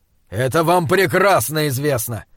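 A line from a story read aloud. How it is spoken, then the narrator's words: Growling. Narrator (Russian): зарычал Джошуа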